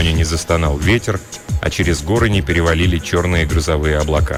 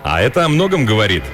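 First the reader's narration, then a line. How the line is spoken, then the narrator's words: Cheerful. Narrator (Russian): весело добавил Риш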